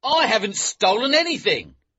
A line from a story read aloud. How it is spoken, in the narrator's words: he shouted